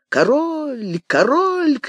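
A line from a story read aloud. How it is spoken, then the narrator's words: Noisy crowd shouting. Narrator (Russian): кричала шумная толпа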